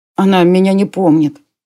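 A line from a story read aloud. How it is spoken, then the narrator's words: Sad boy. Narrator (Russian): грустно сказал мальчишка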